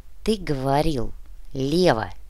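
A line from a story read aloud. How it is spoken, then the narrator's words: Quiet but very firm. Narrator (Russian): Тихо, но очень твердо произнес бульдозерист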